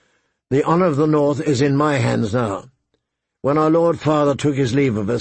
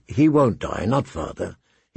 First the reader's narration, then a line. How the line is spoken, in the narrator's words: he said calmly